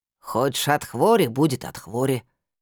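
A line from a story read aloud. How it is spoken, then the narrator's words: Grumbling, head down. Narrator (Russian): не поднимая головы, пробурчала травница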